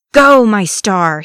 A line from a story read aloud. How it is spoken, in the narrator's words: he roared